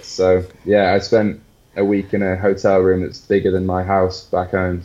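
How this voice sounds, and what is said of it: English accent. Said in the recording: “my apparently English smile ... It was the accent, man. It was the accent”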